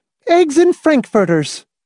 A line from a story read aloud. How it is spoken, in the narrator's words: Miss Rice cried